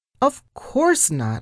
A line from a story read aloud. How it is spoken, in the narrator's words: I said happily